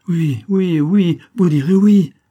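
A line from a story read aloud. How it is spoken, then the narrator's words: Young man crying out. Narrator (French): s'écria le jeune homme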